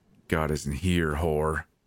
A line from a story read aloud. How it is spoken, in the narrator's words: he snarled